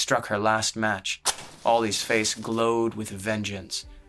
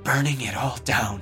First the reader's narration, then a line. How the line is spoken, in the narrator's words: Ollie whispered